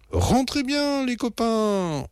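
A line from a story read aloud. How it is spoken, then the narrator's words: Shouted. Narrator (French): hurle-t-il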